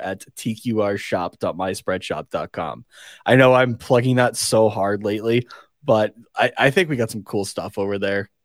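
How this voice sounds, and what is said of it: Raw, strained hoarse voice. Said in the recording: “my voice is a little raw right now. I ref'd three games yesterday ... my voice is very much going”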